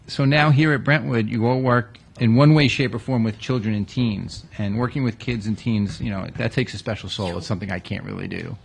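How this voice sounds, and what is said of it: Long Island accent. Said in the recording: “our accents. Our horrible Long Island accent.”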